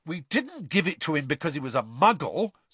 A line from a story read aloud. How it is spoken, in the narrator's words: said Fred indignantly